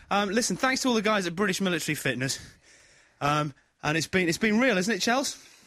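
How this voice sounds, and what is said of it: Out of breath, panting. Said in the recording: “I'm out of breath ... God, I'm out of breath.”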